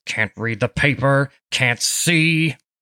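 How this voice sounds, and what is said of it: Grumpy old man's voice. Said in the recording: “in his usual grumpy voice”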